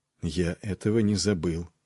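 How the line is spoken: Quiet. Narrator (Russian): проговорил тихо Нед

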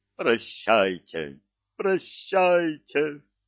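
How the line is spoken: Sobbing. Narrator (Russian): Кикимор зарыдал

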